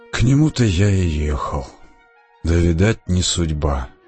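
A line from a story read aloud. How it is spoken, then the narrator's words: Sad. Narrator (Russian): печально молвил Николай Иванович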